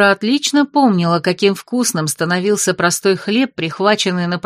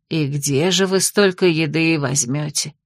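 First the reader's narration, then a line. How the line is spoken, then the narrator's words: Sympathetic yet doubtful sigh. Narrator (Russian): Вроде бы сочувственно вздохнула Хельга, но Дора расслышала в ее вопросе и сомнение, и недоверие, и затаенный интерес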